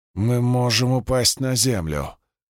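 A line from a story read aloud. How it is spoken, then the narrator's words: Hissed through clenched teeth. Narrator (Russian): прошипел он сквозь стиснутые зубы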